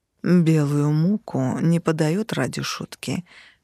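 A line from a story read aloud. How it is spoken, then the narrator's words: Vampire, through gritted teeth. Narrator (Russian): процедил вампир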